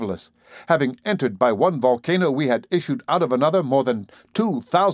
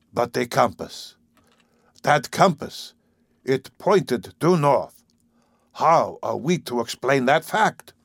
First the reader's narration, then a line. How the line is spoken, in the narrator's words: my uncle murmuring